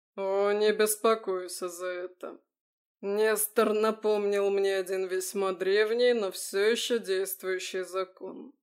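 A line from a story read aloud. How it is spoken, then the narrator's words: Muffled, trying to stay calm. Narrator (Russian): глухо ответил Харитон, пытаясь успокоиться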